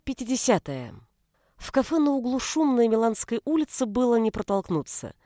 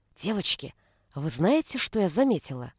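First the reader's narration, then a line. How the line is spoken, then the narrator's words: Whisper. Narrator (Russian): зашептала Кристина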